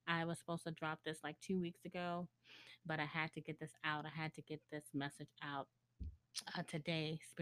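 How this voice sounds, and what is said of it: Tired, exhausted voice. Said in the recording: “I am exhausted. You can kind of tell in my voice”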